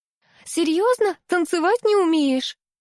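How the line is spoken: Flirtatious giggle. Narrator (Russian): хихикнула Алиса, кокетливо

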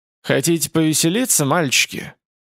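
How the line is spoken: Hoarse, chilling voice. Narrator (Russian): хриплого голоса

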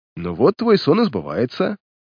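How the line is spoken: Laughing. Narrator (Russian): рассмеялся Картер

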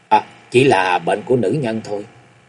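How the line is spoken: Cold, hesitant. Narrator (Vietnamese): Tam phu nhân lạnh lùng và ngập ngừng nói

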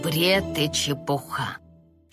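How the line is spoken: Barely audible grumble. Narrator (Russian): чуть слышно проворчал отец

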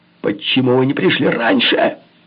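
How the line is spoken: Yell. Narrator (Russian): заорал я

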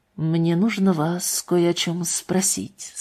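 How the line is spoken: Quiet. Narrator (Russian): сказал Уэстон тихо

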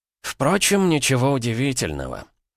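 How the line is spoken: Snorting. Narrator (Russian): хмыкнул преподаватель

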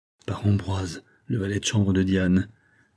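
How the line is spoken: Devastated murmur. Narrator (French): murmura Hector, anéanti

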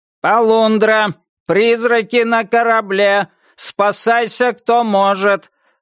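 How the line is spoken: Yelling right by ear. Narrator (Russian): заорал у него над ухом робот-капитан

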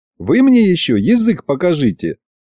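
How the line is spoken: Giggling. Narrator (Russian): хихикнул я

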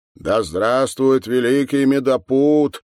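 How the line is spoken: Loud solemn chorus. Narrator (Russian): громко и торжественно произнесли они

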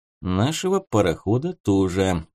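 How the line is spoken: Gloomy. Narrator (Russian): мрачно заметил Будищев

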